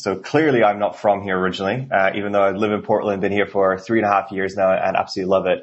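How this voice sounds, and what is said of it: Norwegian accent. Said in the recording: “my accent... Originally from Norway... a lot of folks here with that accent”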